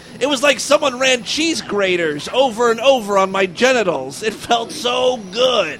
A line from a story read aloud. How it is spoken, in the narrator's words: Jim cried